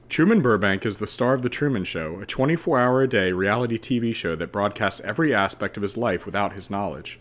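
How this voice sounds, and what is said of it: Reading aloud in a teacher voice. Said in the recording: “Should I put my teacher voice on?”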